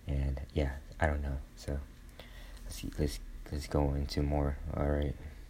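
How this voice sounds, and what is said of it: Whispering. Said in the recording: “I'm whispering in a dark room right now”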